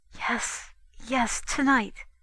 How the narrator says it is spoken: Between the kisses she whispered

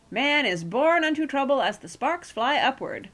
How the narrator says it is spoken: Bagthorpe was cheerfully telling Aunt Penelope

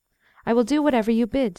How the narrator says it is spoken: said Gondebeau

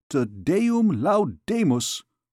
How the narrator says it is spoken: exclaimed Master Jean

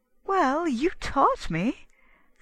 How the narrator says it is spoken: said she, and they laughed

